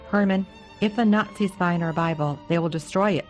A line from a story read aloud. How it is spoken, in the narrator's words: Mother said